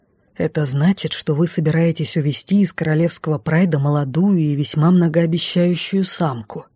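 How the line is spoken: Odd-voiced mage. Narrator (Russian): странным голосом сообщил маг

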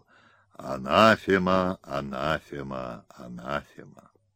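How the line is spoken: Gloomy choral chant, funeral bells. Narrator (Russian): Мощный хор при медленном погребальном перезвоне колоколов мрачно трижды пропел

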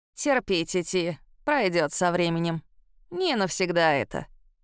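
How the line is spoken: Old woman's grumble. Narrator (Russian): буркнула бабка

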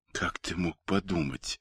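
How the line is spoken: Quiet. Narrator (Russian): тихо произнесла Ольга

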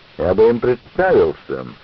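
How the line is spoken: Loud repetition. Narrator (Russian): он громко повторил

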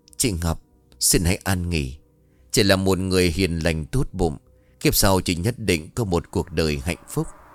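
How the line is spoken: Soft farewell. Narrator (Vietnamese): Thúy khẽ bảo

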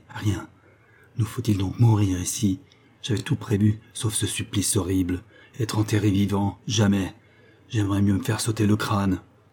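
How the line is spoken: Shaken murmur. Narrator (French): murmura-t-il, altéré

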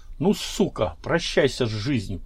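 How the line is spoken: Hiss. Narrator (Russian): прошипел Журавлев

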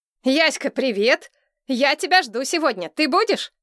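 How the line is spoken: Overly loud over microphone. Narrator (Russian): Голос подруги из микрофона звучал излишне громко

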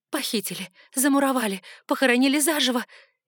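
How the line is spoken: Shrieking, overlapping thoughts. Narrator (Russian): визжали мысли, перебивая друг друга

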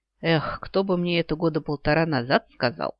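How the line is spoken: Sighing. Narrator (Russian): вздохнула я

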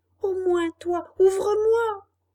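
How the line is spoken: Crying, pleading shout. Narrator (French): cria Pinocchio en pleurant et en suppliant

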